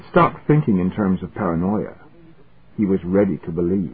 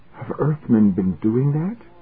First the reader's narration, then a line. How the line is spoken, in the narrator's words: Arbordon said in a queer, strangled voice